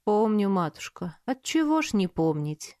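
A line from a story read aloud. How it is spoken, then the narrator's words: Sad. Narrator (Russian): грустно ответил Савельев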